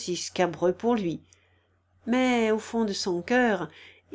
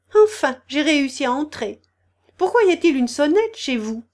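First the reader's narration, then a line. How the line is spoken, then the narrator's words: Cheerful. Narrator (French): dit-elle gaiement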